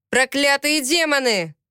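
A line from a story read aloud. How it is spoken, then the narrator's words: Shouting. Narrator (Russian): прокричал Виктор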